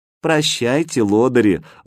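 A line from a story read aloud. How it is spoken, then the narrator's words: Affectionate. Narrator (Russian): ласково сказала Катя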